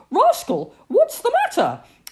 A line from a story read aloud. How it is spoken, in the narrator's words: cried